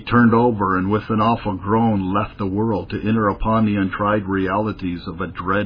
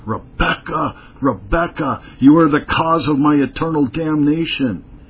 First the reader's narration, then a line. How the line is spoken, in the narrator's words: his eyes flashing with terror, he cried out